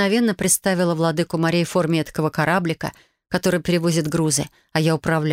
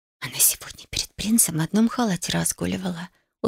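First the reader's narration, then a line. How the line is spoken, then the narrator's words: Whisper. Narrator (Russian): шепот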